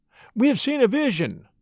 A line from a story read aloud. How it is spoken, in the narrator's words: he cried